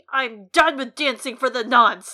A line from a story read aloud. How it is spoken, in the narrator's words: said too loudly